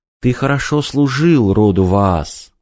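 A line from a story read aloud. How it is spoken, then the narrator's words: Gentle. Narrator (Russian): ласково ответила Эйлор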